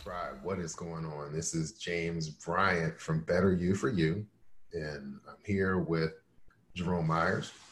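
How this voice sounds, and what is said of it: Lower radio-DJ voice, allergy-affected. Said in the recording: “my voice is a little bit different. I'm dealing with allergies. So if I have my FM DJ voice on, it is because that's the best octave”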